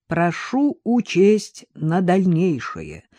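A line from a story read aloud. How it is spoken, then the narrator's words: Low booming drone. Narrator (Russian): прогудел Григорий Крутков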